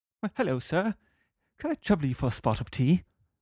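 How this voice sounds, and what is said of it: Put-on English accent. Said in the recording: “I did the English accent.”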